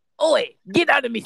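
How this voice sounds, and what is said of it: Shrek cartoon ogre voice impression. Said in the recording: “do a pretty good Shrek impression”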